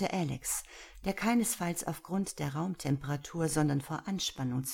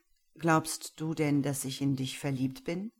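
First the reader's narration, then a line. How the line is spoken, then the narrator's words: Completely calm question. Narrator (German): fragte Kayen, trotz des hitzigen Tons seines Gegenübers, völlig ruhig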